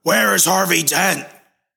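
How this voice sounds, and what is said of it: Imitates Batman's voice. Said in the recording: “My voice is now turning into like Christian Bale Batman.”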